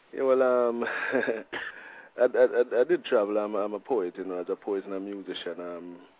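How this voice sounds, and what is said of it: Jamaican accent. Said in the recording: “I'm guessing from your accent that you're not originally from Portland ... I'm a Jamaican”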